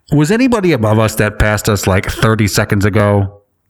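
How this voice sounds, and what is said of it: Airline pilot radio voice. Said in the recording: “Should I do the pilot voice?”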